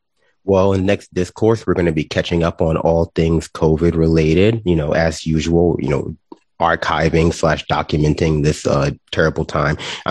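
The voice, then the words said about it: Slightly nasal congested voice. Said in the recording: “if I sound a little nasally ... I'm getting over a sinus infection ... I think it's allergies”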